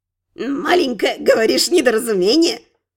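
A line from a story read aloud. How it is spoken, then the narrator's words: Grunt, old-womanish giggle. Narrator (Russian): хмыкнул носатый гоблин и как-то постарушечьи захихикал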